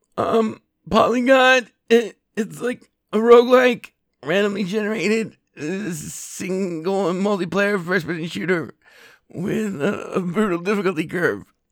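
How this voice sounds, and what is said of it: Shy Bobcat Goldthwait impression. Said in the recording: “my shy Bobcat Goldthwait impression”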